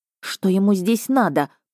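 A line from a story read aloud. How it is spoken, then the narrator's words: Hissed. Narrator (Russian): прошипела я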